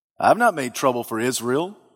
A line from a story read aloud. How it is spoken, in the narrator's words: Elijah replied